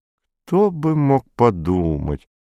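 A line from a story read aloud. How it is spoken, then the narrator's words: Soft singsong, pregnant woman. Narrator (Russian): тихонько пропела беременная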